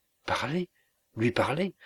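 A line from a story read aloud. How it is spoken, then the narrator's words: Frightened exclamation. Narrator (French): s'écria Annette avec effroi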